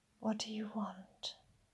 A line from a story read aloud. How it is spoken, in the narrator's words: I hear you whisper